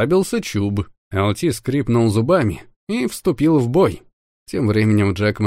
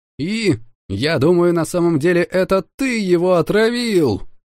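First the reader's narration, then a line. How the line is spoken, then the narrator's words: Furious shout. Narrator (Russian): Яростно выкрикнула Марси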